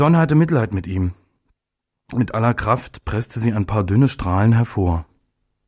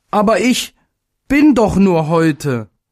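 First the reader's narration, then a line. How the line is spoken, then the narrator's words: Call. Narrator (German): rief er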